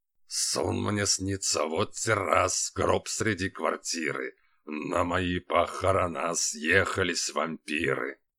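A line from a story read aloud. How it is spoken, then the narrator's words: Hoarse, from stage. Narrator (Russian): звучало хрипло со сцены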